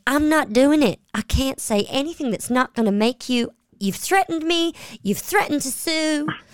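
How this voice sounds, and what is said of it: Designing Women-style Southern accent. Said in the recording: “my kind of designing women accent”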